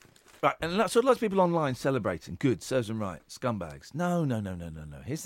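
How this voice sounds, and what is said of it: Usual voice. Nothing is said of it.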